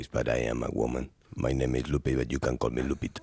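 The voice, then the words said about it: Deliberately deep voice. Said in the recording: “I am doing a real deep voice”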